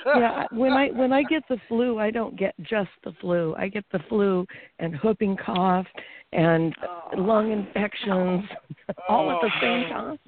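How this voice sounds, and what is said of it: Raspy, sick-sounding voice. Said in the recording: “my raspy voice”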